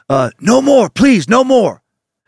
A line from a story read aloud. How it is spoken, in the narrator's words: After briefly succeeding in raising his head above the water, gasps the words